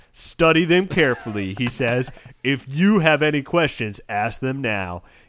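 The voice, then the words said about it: Put-on character voice. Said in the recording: “do my voice”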